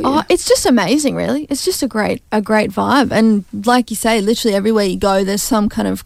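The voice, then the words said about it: Thick Australian accent. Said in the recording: “I'm too bogan ... people genuinely don't understand what I'm saying because my Aussie accent apparently is so thick”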